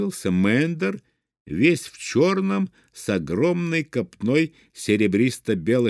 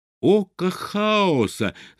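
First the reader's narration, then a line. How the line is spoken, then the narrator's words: Shout. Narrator (Russian): закричал он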